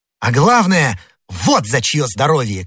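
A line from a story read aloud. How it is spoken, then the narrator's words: Rapturous shout. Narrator (Russian): крикнул Д'Артаньян, словно в порыве восторга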